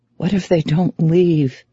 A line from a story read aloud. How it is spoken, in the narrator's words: she whispers